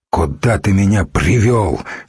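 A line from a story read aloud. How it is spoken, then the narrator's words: Angry. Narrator (Russian): сердито произнес Духарев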